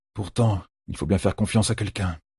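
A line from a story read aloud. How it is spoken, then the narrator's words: Muttered. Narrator (French): marmonna Perrine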